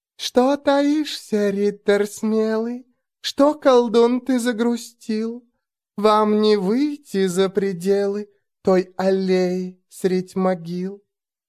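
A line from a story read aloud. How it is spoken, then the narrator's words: Quiet, nasty giggling. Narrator (Russian): Гаденько и тихонечко хихикая, она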